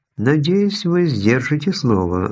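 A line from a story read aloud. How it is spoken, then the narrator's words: Even voice. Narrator (Russian): ровным голосом произнесла она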